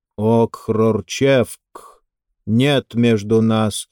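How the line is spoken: Slow. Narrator (Russian): медленно сказал иерарх

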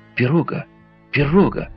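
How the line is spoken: Sudden exclamation. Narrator (Russian): Вдруг Джон Манглс воскликнул

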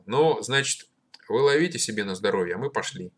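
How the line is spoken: Gruff voice. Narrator (Russian): Андрейка грубым голосом сказал

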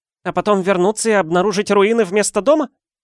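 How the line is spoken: Snapping retort. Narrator (Russian): огрызнулась

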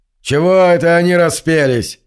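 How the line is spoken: Barking. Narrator (Russian): рявкнул Джендер

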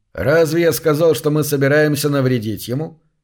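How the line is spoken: Mocking question. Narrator (Russian): насмешливо спросил он

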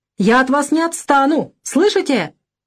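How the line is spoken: Heated shout. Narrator (Russian): крикнул запальчиво

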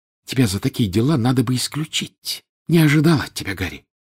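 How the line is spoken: Hissing into ear. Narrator (Russian): Наклонившись к уху Гарри, она зашипела

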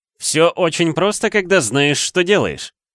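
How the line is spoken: Loud. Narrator (Russian): громко говорил Хагриду Локхарт

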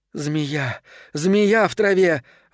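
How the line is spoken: Breathless gasp. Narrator (Russian): выдохнула Белит

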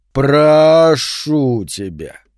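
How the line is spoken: Drawling. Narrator (Russian): протянул Сентябрь

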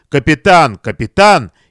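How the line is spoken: Indignant reproachful exclamation. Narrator (Russian): Лицо майора побагровело, и то ли с возмущением, то ли с укором он воскликнул

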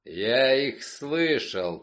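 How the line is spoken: Growling. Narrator (Russian): прорычал он

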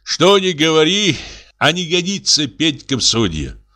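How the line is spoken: Sigh. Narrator (Russian): вздохнул он

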